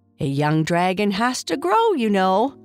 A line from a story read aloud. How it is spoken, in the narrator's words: Kai Kai said with a laugh